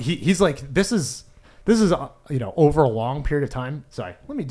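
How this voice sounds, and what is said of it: Usual voice. Nothing is said of it.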